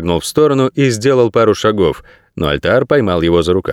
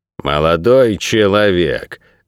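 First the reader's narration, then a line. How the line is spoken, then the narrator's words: Jerky nervous voice. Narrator (Russian): дёрганным голосом сказал дежурный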